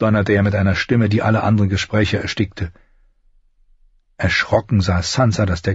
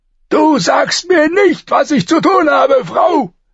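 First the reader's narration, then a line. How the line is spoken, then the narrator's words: Shouting. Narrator (German): schrie er an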